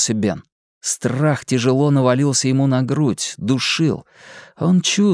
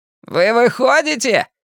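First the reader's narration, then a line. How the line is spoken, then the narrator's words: Shout from above. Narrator (Russian): крикнул сверху Генри Бауэрс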